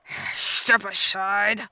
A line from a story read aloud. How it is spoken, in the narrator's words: Muto grumbled